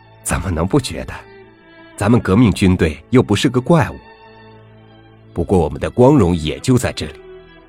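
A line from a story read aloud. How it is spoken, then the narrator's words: Smiling. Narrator (Chinese): 笑了笑，说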